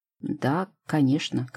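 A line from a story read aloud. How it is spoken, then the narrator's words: Embarrassed mumbling. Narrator (Russian): краснеет, мямлит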